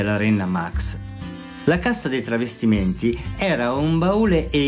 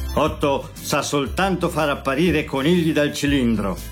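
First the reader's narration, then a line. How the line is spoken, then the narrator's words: Angry grumble. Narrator (Italian): brontolò arrabbiato Bert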